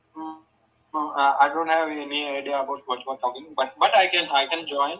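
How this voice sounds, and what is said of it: Indian English accent. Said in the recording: “You're probably from India. I can tell by the accent.”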